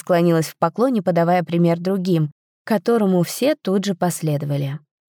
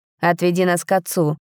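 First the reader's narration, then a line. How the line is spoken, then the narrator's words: Dry command. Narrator (Russian): сухо приказал Рейн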